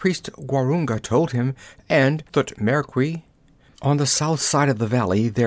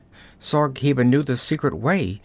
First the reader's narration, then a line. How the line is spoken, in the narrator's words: gasped